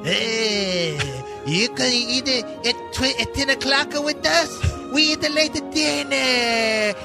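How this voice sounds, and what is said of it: Put-on Spanish accent. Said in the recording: “do your Spanish accent ... I am doing a Spanish accent right now”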